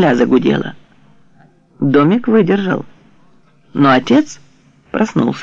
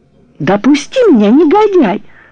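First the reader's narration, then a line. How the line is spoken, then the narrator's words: Indignant struggling shout, mother. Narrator (Russian): возмущенно крикнула мамуля, вырываясь у него из рук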